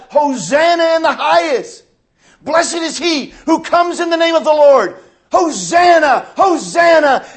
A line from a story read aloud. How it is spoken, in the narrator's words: they cried out